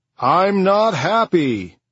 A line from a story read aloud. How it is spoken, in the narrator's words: Another man called out